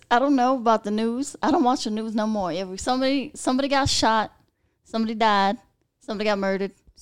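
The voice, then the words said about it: Kentucky accent. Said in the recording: “I still got my Kentucky accent.”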